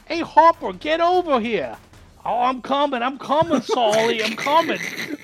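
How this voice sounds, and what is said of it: Put-on Cockney accent. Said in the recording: “Your cockney has managed to offend Dick Van Dyke. ... That's the best accent.”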